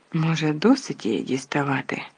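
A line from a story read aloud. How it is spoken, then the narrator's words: Quiet question. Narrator (Ukrainian): тихо запитав Гаррі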